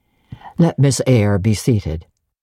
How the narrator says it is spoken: said he, in the impatient yet formal tone

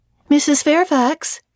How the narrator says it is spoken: I called out

